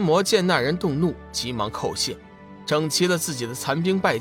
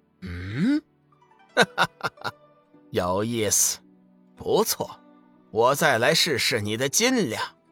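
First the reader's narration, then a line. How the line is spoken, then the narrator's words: Darkening, then laughing. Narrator (Chinese): 那人面色一沉，随即又笑道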